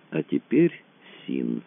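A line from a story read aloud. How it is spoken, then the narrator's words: Slow speech. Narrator (Russian): медленно заговорил Рэндалл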